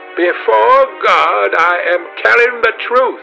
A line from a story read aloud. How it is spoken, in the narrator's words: she cried